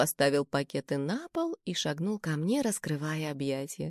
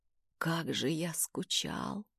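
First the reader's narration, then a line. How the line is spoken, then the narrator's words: Muffled whisper. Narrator (Russian): прошептал он мне в волосы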